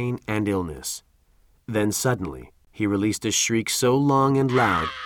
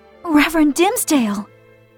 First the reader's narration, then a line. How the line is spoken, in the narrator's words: exclaimed Hester, who was taken by surprise